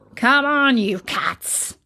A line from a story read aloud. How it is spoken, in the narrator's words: growled the Anubis